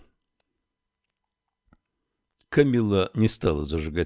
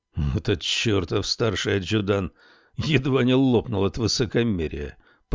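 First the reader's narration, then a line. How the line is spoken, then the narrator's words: Through gritted teeth. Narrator (Russian): процедил он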